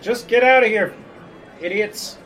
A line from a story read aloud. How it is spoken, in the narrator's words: Chest is yelling at him